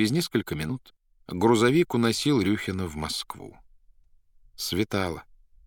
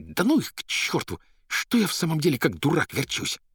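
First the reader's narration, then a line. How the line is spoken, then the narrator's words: Angry hiss. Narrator (Russian): прошипев почему-то со злобой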